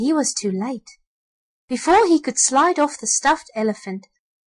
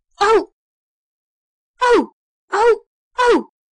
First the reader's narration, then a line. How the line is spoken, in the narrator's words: they cried, as they saw the calico clown on the back of the stuffed elephant